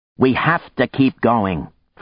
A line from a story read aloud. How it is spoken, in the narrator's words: Frank snapped at Maya